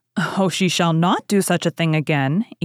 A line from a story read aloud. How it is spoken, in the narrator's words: eagerly rejoined Mrs